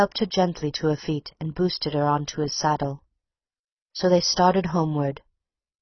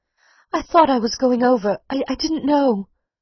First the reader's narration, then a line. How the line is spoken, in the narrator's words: she wailed